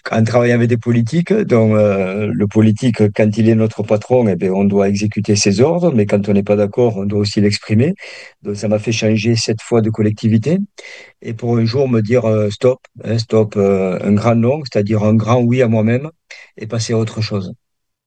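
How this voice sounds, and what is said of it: Singsong southern French accent. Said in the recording (French): “on entend un petit accent chantant ... dans le sud de la France”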